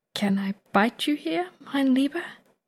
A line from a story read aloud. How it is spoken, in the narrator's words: he asks softly, the implication clear